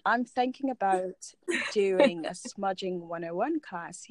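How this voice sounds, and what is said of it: Put-on British accent. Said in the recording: “this is when I bring out the British accent”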